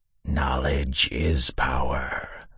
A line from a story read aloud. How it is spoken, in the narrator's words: hissed